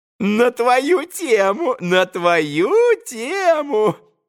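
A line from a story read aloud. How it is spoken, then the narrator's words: Joyful giggling. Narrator (Russian): Радостно хихикал он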